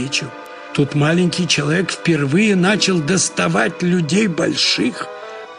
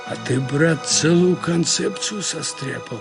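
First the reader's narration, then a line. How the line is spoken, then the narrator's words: Breathless mutter. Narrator (Russian): едва поспевая за группой, бормотал Гурьев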